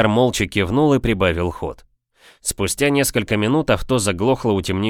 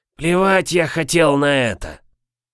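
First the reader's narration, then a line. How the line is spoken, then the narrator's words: Hoarse reply. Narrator (Russian): Прохрипел он в ответ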